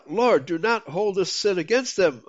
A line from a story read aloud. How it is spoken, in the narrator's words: he fell on his knees and cried out